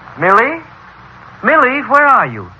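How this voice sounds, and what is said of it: Yelling, calling out loudly. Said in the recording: “Stop yelling.”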